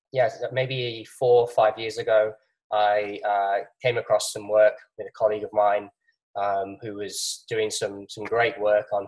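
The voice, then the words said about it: English accent. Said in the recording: “I'm from England, as you can probably tell from my accent.”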